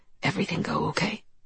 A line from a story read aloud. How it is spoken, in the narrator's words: He whispered in my ear